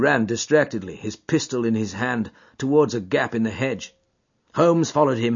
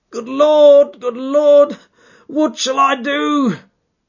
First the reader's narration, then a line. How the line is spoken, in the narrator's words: cried the stranger in an ecstasy of despair